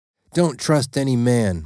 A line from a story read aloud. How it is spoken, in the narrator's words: my dad barked out